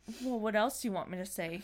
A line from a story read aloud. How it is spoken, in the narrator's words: he snarled